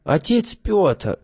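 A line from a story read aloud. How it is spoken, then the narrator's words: Joyful exclamation. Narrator (Russian): радостно воскликнул Герасим Иванович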